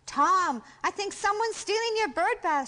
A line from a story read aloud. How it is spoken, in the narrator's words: shouted Sam